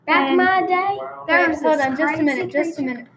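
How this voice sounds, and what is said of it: Poor put-on rural Texan accent. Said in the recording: “we apologize for the terrible accent ... Especially y'all Texans out there”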